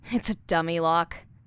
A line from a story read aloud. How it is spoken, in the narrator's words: she said with a scoff